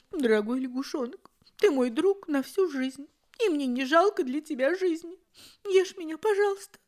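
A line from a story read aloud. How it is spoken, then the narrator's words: Smiling through tears. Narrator (Russian): нарыдавшись, кузнечик подошел к лягушонку совсем близко и сказал, улыбаясь сквозь слезы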